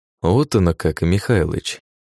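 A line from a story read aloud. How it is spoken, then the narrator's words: Quiet. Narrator (Russian): тихо произнес я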